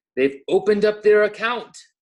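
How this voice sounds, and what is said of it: Weak put-on English accent. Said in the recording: “That was my terrible English accent. I didn't even really try. I just kind of changed my voice inflection.”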